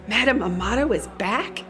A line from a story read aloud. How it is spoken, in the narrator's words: She gasped